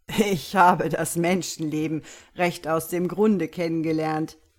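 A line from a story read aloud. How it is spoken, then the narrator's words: Said while still laughing. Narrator (German): sagte noch immer lachend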